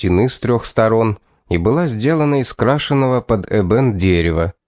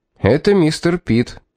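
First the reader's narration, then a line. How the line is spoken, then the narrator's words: Cheerful constable, good news tone. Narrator (Russian): бодрым тоном обратился констебль к этому мужчине, как если бы доставил ему хорошие вести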